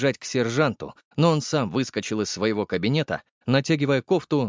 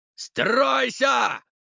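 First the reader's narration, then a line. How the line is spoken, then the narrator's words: Yelled. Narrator (Russian): заорал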